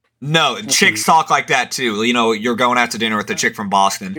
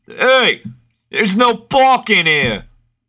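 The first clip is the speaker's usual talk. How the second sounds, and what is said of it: Put-on Italian-American accent. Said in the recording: “More of Italian accent, but you get the gist of it.”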